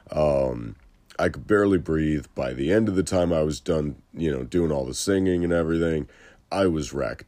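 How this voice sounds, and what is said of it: Lower than usual, congested voice. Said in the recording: “My sinuses were wrecked from the winter. You might still be able to tell the after effects as my voice is lower than usual today.”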